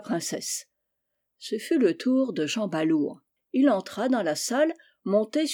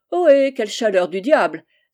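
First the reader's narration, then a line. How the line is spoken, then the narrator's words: Exclaimed. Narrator (French): s'écria-t-il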